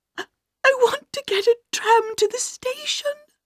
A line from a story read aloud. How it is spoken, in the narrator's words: cried the little governess